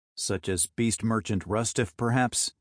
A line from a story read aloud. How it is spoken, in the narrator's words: asked the man